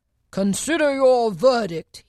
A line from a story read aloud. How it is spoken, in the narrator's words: he said to the jury, in a low, trembling voice